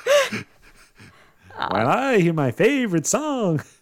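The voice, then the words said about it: Imitates another person's singing voice. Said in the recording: “that impression is half of a B-52's impression”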